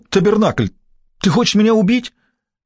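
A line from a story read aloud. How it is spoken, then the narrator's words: Sharp cry. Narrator (Russian): Габри вскрикнул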